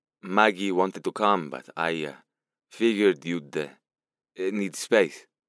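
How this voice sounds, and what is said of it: Strong Italian accent. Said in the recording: “His Italian accent whipped through his tone harder than normal.”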